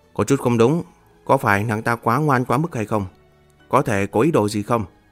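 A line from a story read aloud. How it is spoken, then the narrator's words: Quiet question. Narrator (Vietnamese): Miêu Nghị nhỏ giọng hỏi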